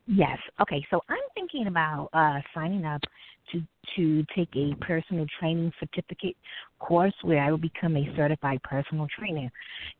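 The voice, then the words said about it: Speaks with a noticeable accent. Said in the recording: “I love your voice, and I love your accent”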